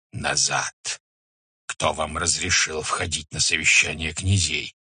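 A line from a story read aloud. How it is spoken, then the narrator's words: Angry hiss. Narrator (Russian): Субудай Богатур зашипел на них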